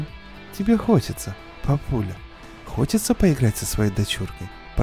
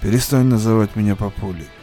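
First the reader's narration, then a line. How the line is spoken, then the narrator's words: Grumbled. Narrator (Russian): буркнул Кантлинг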